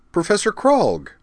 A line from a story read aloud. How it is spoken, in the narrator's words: Utena exclaimed, delighted